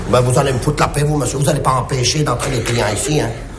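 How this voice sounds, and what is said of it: Southern French Marseille accent. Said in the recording (French): “à votre accent, on sent que vous n'êtes pas de Paris ... je suis de Marseille”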